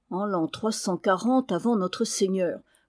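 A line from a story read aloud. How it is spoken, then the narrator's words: Grumbled recitation from memory. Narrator (French): grommela, qui faisait son travail mnémotechnique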